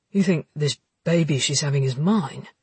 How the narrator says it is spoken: Jackson sighed

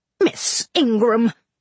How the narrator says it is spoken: exclaimed Mrs

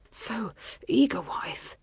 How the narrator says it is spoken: he said between pants

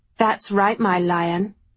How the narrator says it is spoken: she purred

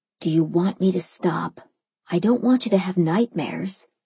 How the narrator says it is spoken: he whispered back

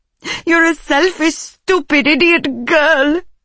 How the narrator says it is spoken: she sobbed

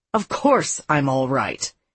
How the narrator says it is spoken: in an irritated tone that he had never used in the past

